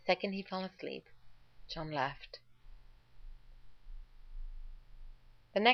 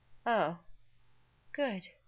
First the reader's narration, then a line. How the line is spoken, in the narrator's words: Rodney yawned